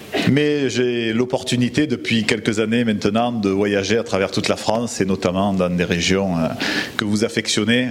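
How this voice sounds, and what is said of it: Southern French accent. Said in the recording (French): “avec mon accent, que je viens vraiment du sud de la France”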